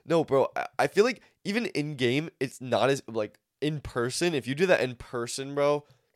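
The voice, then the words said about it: Somewhat nasal-sounding voice. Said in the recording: “because of my nose issue, I have a little bit more of like a nasally sounding voice”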